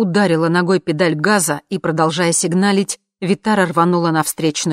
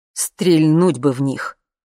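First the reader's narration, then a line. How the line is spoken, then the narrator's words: Through gritted teeth. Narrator (Russian): сказал папа сквозь зубы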